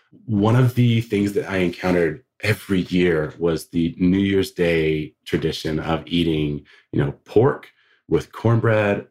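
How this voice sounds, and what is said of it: Southern US accent, South Georgia. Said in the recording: “I grew up in the South. My accent sometimes betrays me, but I grew up in South Georgia.”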